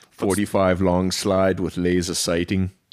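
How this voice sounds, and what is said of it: Poor Arnold Schwarzenegger impression. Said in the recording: “My Arnold's accent sucks.”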